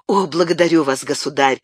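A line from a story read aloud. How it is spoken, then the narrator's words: Joyful exclamation. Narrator (Russian): воскликнул Габриэль, и в его взгляде сверкнула радость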